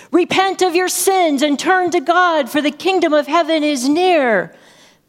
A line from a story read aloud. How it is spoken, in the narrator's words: John the Baptist impatiently shouted